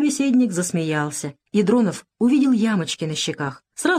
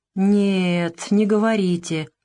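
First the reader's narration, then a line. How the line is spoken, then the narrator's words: Drawling. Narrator (Russian): протянул Дронов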